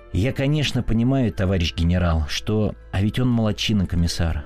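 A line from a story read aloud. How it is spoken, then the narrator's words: Suddenly cheerful. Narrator (Russian): вдруг весело сказал начальник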